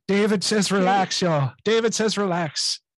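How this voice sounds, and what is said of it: Deliberately bad imitation of another's voice. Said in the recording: “my terrible David Keohan impression ... That's the worst fucking accent I've ever heard ... It's intentionally bad”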